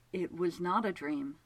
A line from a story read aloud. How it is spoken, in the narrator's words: Childermas said softly